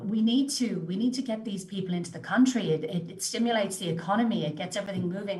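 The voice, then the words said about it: Foreign accent, non-Australian. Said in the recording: “as you can hear from my accent, I'm an inbred as well. I came in from overseas”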